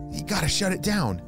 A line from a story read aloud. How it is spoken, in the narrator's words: Maddie whispered to Ollie